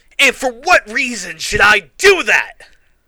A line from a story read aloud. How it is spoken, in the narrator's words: I yelled angrily